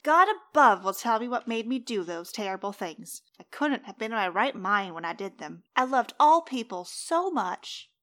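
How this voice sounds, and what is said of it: Inconsistent put-on accent. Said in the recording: “That was all over the place on the accent.”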